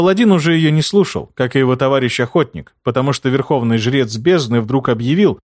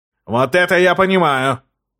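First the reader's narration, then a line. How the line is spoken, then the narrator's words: Shouting. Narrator (Russian): закричал Тагил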